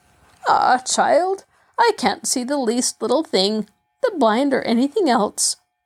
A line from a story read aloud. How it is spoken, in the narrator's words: the grandmother said sadly